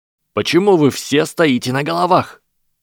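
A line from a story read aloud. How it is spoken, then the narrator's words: Young commander shouting. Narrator (Russian): прокричал юный командир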